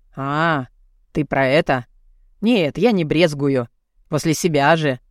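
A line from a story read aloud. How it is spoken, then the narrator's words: Dismissive snort. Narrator (Russian): фыркнул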